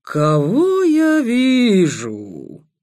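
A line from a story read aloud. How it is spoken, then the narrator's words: Booming mocking rider. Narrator (Russian): прогрохотал всадник насмешливо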